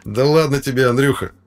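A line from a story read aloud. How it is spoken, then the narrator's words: Sudden laugh. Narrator (Russian): вдруг рассмеялся Кирилл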